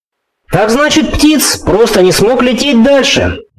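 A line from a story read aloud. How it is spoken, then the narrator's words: Loud loudspeaker announcement. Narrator (Russian): голосом Маурера громко сообщили динамики внешней связи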